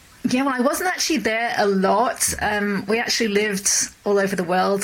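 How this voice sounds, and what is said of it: Mid-Atlantic English accent. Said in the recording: “I'm actually from England ... that explains the accent ... it's a mid-Atlantic accent”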